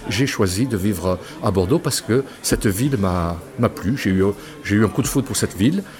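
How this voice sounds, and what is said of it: Slight regional French accent. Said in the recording (French): “on me dit j'ai gardé un peu un accent ... Oui, un petit peu, oui.”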